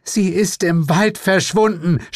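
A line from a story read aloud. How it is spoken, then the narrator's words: Hysterical scream. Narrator (German): schrie, eindeutig hysterisch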